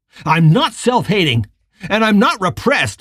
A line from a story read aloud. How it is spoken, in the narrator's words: he screamed